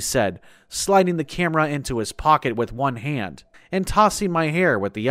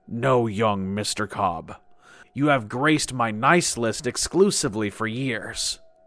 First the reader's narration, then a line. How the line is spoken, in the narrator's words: he said with a hearty chuckle